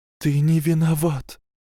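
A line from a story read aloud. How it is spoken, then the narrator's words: Breathy exhale. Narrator (Russian): Она выдохнула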